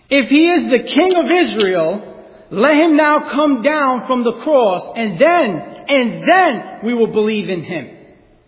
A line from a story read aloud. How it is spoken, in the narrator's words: the Jewish people shouted at him